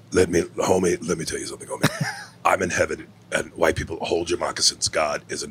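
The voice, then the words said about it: Imitates another person's voice. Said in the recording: “you did your impression, which is fucking nuts ... you do Paul Mooney and Tony Soprano ... after you do that Paul Mooney”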